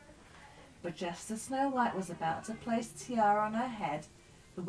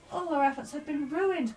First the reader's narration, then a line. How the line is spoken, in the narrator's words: cried Happy